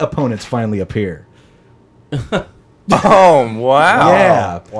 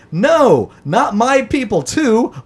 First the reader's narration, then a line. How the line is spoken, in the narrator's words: the main character yells